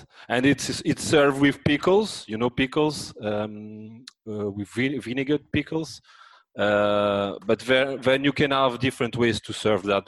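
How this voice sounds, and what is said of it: Deep voice, French accent. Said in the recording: “the French accent. You know, that deep voice French accent.”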